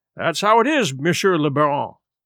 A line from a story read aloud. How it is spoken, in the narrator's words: he said